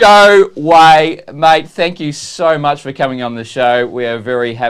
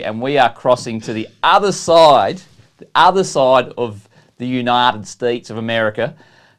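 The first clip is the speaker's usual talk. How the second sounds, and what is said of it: Deliberately bad put-on accent. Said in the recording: “How's that for a bad accent? Oh, that's terrible. That's terrible.”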